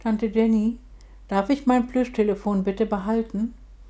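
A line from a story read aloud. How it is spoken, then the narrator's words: Very quiet child's plea. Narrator (German): die kleine Patricia bat ganz leise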